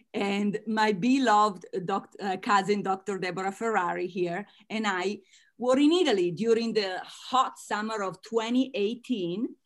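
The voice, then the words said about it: Italian-American accent. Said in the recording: “As you can tell from my accent, I am Italian-American”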